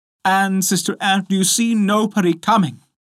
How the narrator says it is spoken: said his wife, cried out

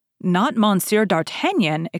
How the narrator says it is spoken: exclaimed the commissary

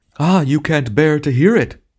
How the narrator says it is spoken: he shouted with miserable triumph

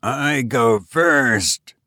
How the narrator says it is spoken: repeated Ursula in a new and strange voice as her heavy eyes slowly closed

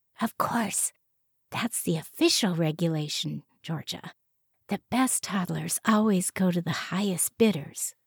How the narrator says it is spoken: she whispered

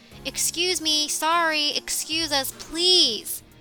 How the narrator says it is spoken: yelling

